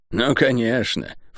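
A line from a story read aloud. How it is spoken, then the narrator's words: Snort. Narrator (Russian): фыркнула Тиф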